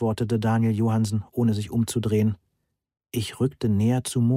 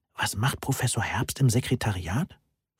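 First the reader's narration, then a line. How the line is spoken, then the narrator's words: Worried whisper in ear. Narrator (German): flüsterte besorgt in ihr Ohr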